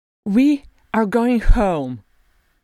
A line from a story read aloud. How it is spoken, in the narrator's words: she cried in her ringing voice of diamond and mithril